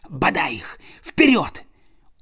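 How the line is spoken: Whispering. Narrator (Russian): он прошептал

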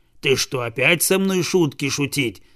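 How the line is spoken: Dog's growl. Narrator (Russian): зарычал пес

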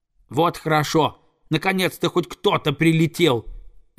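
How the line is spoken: Young eaglet shouting. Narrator (Russian): закричал орленок

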